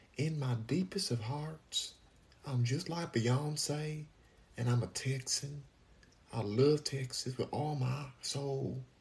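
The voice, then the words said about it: Bad put-on Texan accent. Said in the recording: “That's the worst Texan accent ever... Trying to pretend to have a Texas accent.”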